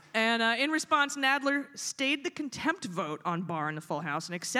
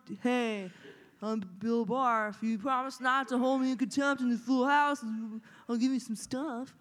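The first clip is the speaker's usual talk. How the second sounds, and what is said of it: Impression of Bill Barr. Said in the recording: “pretty good impression”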